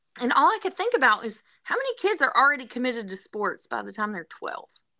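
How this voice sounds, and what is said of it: Southern accent. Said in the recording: “a native daughter of Wisconsin with a Southern accent.”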